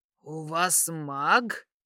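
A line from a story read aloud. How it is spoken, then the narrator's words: Hissed, gang leader. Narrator (Russian): прошипел криворотый главарь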